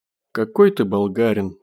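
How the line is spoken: Grumbling from below. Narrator (Russian): пробурчал Костя снизу

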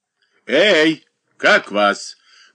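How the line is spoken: Shout. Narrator (Russian): крикнул Воронов

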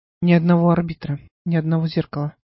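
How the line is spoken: Calm. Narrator (Russian): спокойно произнес странник

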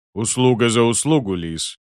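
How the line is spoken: Booming drone. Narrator (Russian): прогудел он

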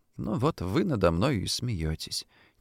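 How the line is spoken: Quiet complaint. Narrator (Russian): тихо пожаловалась Дуся

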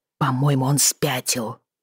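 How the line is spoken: Tragic whisper. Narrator (Russian): произнесла я трагическим шёпотом

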